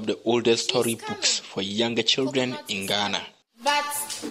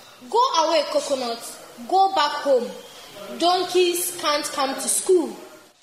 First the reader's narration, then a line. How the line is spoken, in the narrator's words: Clapper, the teacher, shouts